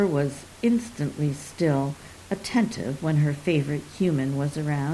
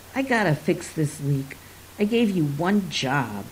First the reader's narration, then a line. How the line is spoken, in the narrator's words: Dad snapped